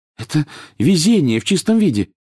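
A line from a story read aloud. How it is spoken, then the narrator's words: Excited. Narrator (Russian): взволнованно произнесла Гермиона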